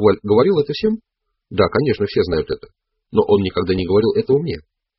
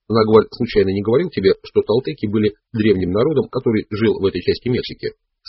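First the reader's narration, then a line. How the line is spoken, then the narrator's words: Plain. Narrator (Russian): спросил я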